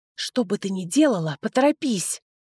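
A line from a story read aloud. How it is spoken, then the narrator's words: Hissed into ear. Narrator (Russian): прошипел мне на ухо Титус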